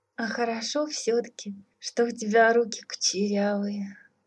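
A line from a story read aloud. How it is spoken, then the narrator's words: Sleepy mumble. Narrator (Russian): Сонно пробормотала царевна-лягушка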